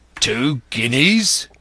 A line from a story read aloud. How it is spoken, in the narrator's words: roared Mary